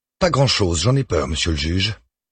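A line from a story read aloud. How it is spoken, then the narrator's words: Surly tone. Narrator (French): confirme Geneviève Bonnet d'un ton rogue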